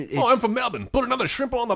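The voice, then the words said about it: Exaggerated put-on Australian accent. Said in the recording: “Like somebody trying to affect an Australian accent ... turned up to 11”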